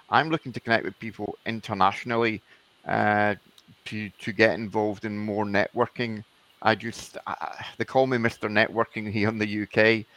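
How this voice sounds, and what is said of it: Scottish accent. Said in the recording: “you can tell with my accent, I'm Scottish”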